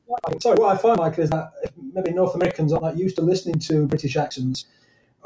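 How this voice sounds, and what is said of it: British accent. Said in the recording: “by your accent, in case people didn't pick that up, you are from what we call the other side of the pond”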